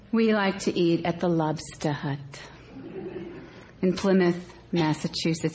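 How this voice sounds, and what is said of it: Strong Cape Cod Massachusetts accent. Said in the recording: “coming from the Cape Cod area, I will revert to my real accent ... If you need translation, just raise your hand.”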